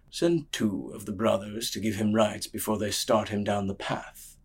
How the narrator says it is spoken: he murmured

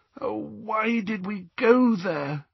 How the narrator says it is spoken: groaned Hermione after a few minutes' silence

